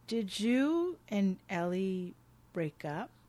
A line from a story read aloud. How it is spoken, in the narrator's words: he says slowly and carefully